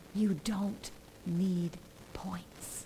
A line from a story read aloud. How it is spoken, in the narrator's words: whisper to them